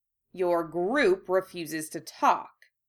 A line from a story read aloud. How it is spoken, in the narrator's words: Moody growled irritably